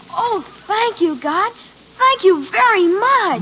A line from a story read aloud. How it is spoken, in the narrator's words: very loudly and thankfully he'd say